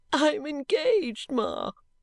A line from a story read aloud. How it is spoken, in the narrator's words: sobbed Caddy